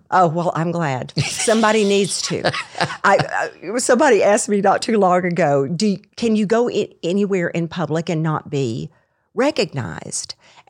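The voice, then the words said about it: Distinctive Arkansas-Texas Southern accent blend. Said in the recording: “where did you get that accent? It's because I was raised in Arkansas, then moved to Texas. Yes. And the blend is just a train wreck. ... I love the accent. ... if I say even a phrase, it's so distinctive.”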